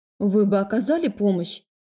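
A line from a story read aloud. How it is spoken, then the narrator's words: Cold. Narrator (Russian): холодно отметила Лика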